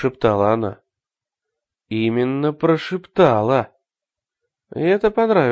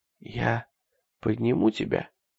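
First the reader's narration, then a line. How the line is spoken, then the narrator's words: Whisper in ear. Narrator (Russian): шепнул он на ухо девочке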